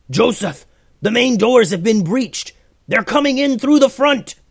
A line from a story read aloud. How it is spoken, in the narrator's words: The soldier yelled out